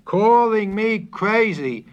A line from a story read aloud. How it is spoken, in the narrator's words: shouted